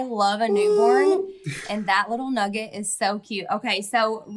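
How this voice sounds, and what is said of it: Usual voice. Nothing is said of it.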